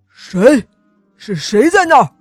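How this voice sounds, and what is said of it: Frightening, menacing voice. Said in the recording (Chinese): “霸王龙突然用很可怕的声音说”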